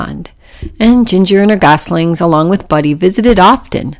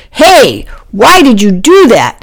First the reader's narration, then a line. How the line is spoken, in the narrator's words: He had his angry face and shouted